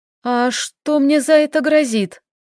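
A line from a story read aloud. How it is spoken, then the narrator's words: Trembling voice. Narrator (Russian): спрашиваю дрожащим голосом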